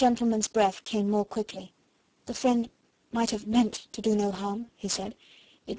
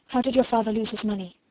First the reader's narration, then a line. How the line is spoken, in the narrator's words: the Indian gentleman broke in breathlessly